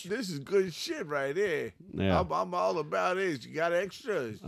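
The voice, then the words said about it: Put-on Bronx New York accent. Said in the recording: “What breed has a Bronx, New York accent?... What kind of dog sounds like that?”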